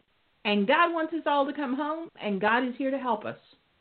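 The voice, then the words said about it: Yelling, impassioned loud voice. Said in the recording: “I'll stop yelling at you”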